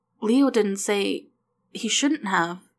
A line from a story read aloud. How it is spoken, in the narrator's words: Dana stammered